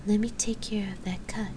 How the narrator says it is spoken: the bard said finally, in a very quiet voice

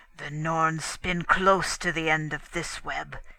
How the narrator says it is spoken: he rumbled

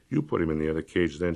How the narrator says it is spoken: she said quietly

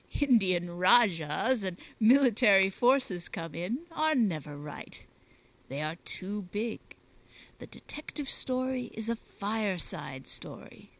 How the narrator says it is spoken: chuckling

